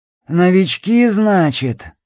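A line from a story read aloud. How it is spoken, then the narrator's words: Satisfied grunting question. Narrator (Russian): Удовлетворенно крякнул Сиплый и сам спросил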